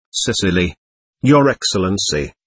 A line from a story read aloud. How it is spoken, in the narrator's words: faltered the captain